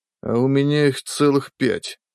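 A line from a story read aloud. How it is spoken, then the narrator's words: Inner sigh. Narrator (Russian): мысленно вздохнул следователь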